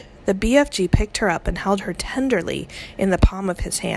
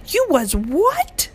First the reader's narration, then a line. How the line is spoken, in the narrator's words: cried the BFG